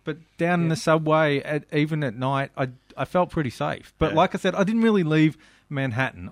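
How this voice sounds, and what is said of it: Australian accent. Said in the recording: “I'm from Australia ... Love the accent.”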